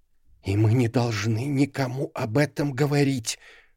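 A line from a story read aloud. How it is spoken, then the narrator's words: Mother's whisper. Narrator (Russian): шепотом произнесла ее мать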